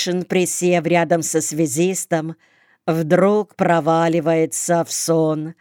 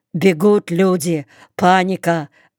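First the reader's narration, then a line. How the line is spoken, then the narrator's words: Hoarse rasp. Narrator (Russian): выхрипывает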